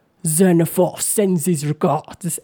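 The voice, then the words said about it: Thick orcish accent. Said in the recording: “in a thick orcish accent says”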